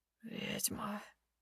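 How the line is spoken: Hoarse, penetrating voice. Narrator (Russian): Хриплый голос пробирается до самого сердца

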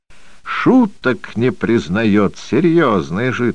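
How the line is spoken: Hearty laughter. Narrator (Russian): хохотал от всей души Лихолетьев

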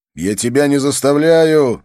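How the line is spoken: Shouting. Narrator (Russian): закричал

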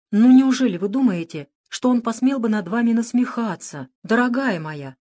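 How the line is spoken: Exclaimed. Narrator (Russian): воскликнула мадам Софи

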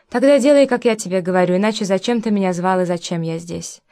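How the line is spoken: Very confident, calm. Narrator (Russian): очень уверенно и спокойно сказал Сергей

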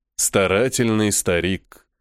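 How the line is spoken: Smirking grunt. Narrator (Russian): хмыкнул Фуриар

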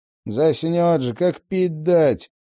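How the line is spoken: Grumbling. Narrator (Russian): ворчал Винни

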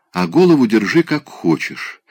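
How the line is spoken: Plain. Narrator (Russian): сказал он

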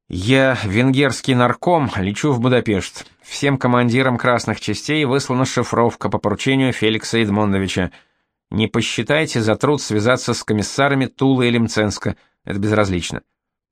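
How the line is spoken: Relieved sigh, then speaking. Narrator (Russian): Яныш облегченно вздохнул и сказал

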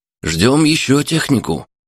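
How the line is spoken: Replying. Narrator (Russian): отозвался сварщик

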